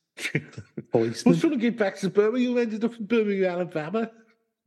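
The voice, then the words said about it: Poor put-on Brummie accent. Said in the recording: “that was a terrible Rummy accent”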